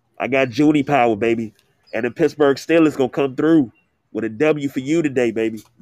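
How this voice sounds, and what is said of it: Congested, stuffed-up voice. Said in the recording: “I sound a little stuffed up”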